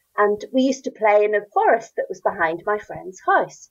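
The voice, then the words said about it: Northern Irish accent. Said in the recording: “you can hear from my accent, I'm Northern Irish”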